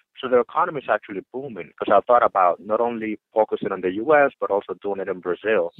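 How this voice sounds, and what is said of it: Dominican Republic accent. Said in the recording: “where is your accent from? ... I'm from the Dominican Republic.”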